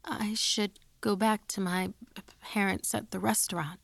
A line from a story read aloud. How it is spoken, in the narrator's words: I stammered